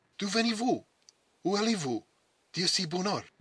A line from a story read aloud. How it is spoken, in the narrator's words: demanded the grenadier, in the language and the accent of a man from old France